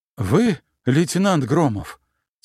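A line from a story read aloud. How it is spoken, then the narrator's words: Heavy exhale. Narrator (Russian): тяжко выдохнул он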